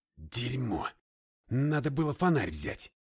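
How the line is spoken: Grumbling. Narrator (Russian): проворчал я

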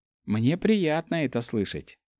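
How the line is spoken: Tender smiling voice. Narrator (Russian): нежно улыбнулась девушка

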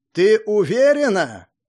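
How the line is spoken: Loud, sinister mage. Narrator (Russian): громко спросил маг, зловеще улыбнувшись

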